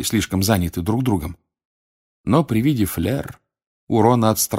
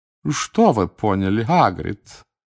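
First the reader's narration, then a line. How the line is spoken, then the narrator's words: Deep bass purr. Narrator (Russian): промурлыкала басом мадам Максим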